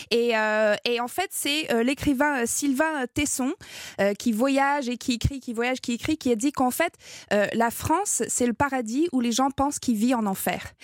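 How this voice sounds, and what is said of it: Slight English-Canadian accent in French. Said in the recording (French): “mon petit accent, je suis canadienne anglophone”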